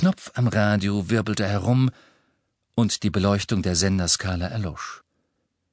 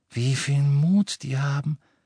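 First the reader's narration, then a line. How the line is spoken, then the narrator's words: Sighed admiringly. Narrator (German): seufzte Hermine voll Bewunderung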